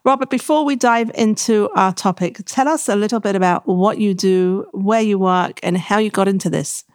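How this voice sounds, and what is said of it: British accent. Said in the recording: “it's a pleasure to have a British guest this time ... It keeps my accent a little bit stronger. When I speak to Americans, it gets watered down.”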